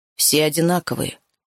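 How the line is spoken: Muffled hollow voice. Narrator (Russian): глухо проговорил Филиас

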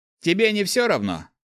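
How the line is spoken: Snorting remark. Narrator (Russian): хмыкнул второй

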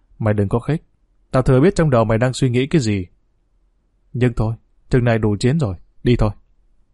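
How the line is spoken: Harsh stern voice. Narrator (Vietnamese): Long Chín Ngón gằn giọng

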